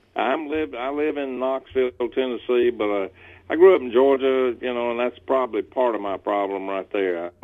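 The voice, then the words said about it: Noticeable regional American accent. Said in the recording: “just in case people can't tell based off of your accent, where are you from?”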